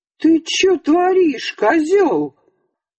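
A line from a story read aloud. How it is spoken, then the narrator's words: Yelling, threatening man. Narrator (Russian): чужой городской мужик, гостивший у Михалыча, орал и грозился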